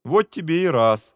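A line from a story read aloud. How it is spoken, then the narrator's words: Laughing. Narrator (Russian): засмеялся товарищ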